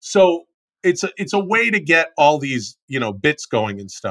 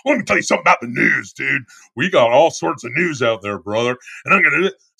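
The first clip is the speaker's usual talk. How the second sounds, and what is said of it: Hulk Hogan impression, thick delivery. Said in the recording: “your Hulk Hogan impression ... it's a very thick, weird delivery with it's a very complex delivery”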